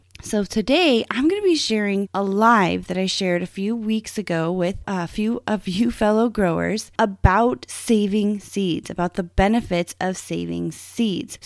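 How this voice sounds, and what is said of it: Strained voice from a cold. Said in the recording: “my voice is a little strained. I've caught a summer cold ... my voice, I just really can't deliver that for you today”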